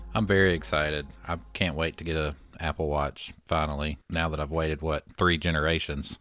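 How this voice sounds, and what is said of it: Flat monotone unexcited voice. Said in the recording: “does your voice ever actually sound excited? ... I don't think ... capable of sounding excited. ... I didn't realize I was that monotone all the time.”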